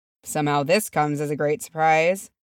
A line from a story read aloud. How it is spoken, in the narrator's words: said Feely dryly